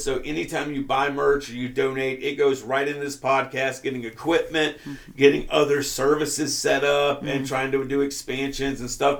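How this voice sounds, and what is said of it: Raspy, hoarse voice. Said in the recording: “I'm sorry, I had to cough. ... I am raspy as fuck. I'm like two tones away from”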